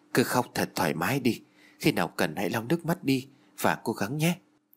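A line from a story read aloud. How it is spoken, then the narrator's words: Soft, gentle. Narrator (Vietnamese): Hiếu khẽ nói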